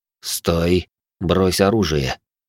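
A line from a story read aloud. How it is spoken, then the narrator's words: Quiet, barely moving lips. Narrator (Russian): почти не разжимая губ, я тихо произнес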